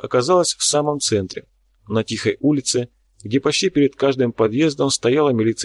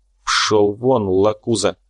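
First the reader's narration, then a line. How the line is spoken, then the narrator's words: Through gritted teeth. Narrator (Russian): процедил Корф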